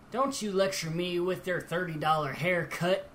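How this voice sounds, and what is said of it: Southern accent imitating Android 13. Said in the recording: “Now that was an imitation of uh, of uh, Chuck Huber's uh, Southern impression of Android 13.”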